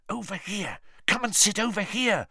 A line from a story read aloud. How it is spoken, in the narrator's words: Ron hissed